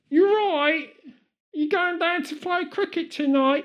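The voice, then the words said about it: Stereotypical British accent. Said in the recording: “all right, governor, as our standard British accent”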